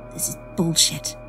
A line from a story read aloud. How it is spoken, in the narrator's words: I mutter under my breath